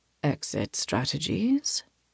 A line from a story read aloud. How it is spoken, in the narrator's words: In a low voice, he murmurs against my neck